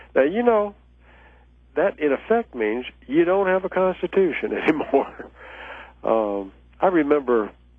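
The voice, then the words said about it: Southern American accent. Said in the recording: “you probably can tell from my voice that I'm a Southerner”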